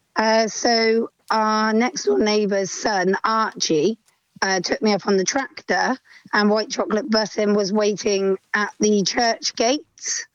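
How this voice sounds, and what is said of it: Hoarse voice. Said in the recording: “You sound a little bit hoarse today ... My voice hasn't come back from the weekend.”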